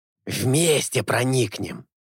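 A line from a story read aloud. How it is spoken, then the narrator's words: Hissing. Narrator (Russian): зашипел Алета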